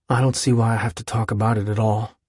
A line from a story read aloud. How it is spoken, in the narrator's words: he muttered at her once